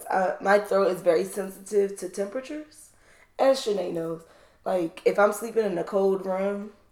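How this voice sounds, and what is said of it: Hoarse, nearly lost voice. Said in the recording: “apologize for my voice ... I don't have a voice ... it just doesn't sound quite like my regular voice”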